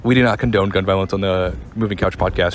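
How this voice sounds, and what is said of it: Announcer voice. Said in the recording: “I can do my like announcer voice”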